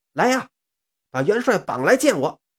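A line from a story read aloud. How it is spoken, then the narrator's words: Furious roar. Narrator (Chinese): 蛇精一听是勃然大怒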